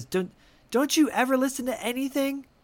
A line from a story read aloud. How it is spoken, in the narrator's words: Kirsten yells at her and says